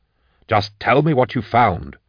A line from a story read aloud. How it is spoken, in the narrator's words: Endor snapped